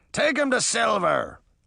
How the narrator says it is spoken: the first man shouted

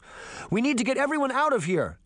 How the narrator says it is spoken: Sabrina shouted over the fighting

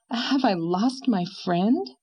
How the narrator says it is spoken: said Anne with a sigh

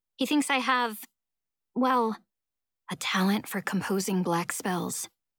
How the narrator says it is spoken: murmurs Darby

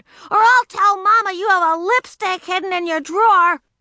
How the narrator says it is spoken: shouted

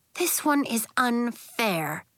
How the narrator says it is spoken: said

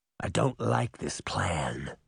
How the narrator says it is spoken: he growled

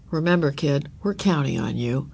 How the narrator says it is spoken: her father said

